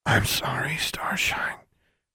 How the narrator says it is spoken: Journey whispered

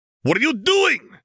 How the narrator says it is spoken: Mercurio shouted

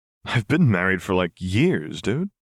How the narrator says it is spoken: Vi said with a small laugh

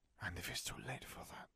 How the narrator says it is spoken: Fleur whispered

